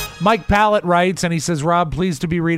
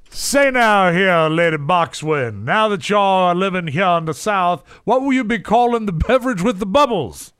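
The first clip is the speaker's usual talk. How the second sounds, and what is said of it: Put-on Southern US accent. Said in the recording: “reading in your best Southern accent”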